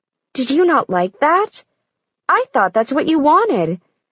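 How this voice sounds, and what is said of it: Sugary, sweet mocking voice. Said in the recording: “in a sugary voice”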